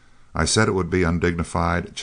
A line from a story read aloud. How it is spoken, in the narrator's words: chuckled Seaton, rather short of breath